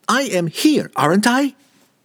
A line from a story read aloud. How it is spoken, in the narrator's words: Regis came back sharply, rudely actually, and the uncustomary edge to his voice